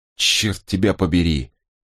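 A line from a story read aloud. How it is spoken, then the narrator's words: Muttering. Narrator (Russian): пробормотал я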